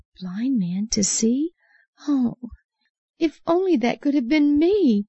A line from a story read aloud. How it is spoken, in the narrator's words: Bartimaeus probably sighed with longing